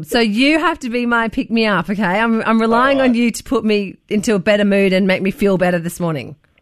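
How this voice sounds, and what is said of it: Voice of someone with a cold. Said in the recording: “I'm feeling rotten today, Luke. I have a cold”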